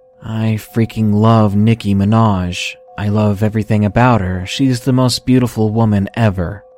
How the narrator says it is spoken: he said in the most monotone and serious voice ever

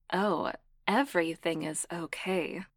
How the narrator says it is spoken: Cassandra purred

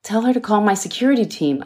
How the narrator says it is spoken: Almasi shouted

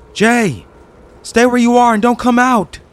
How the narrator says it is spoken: yelled into the house

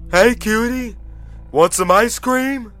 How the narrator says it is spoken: The driver, wearing his white shirt, called out

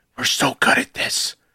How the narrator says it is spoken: hearing him whisper

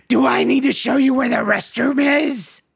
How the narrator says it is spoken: It hissed at me in remarkably good English

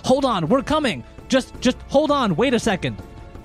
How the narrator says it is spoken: he shouts to them

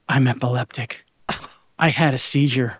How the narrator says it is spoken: Very quietly, Rebecca finally said

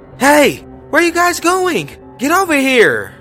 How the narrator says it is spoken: shouting

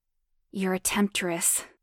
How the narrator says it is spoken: grunted

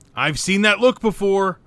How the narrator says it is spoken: shouts

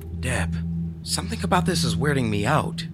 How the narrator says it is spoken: I said hesitantly

